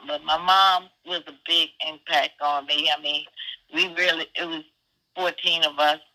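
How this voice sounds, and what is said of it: Rough, sick-sounding voice. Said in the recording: “excuse my voice, but uh, I got a cold or something”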